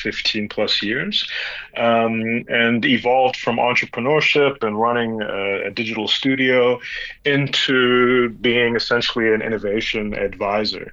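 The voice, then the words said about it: American accent with a twang. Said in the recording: “I wasn't expecting an American accent ... the twang comes from 17 years living in the U.S. ... can't shake the twang”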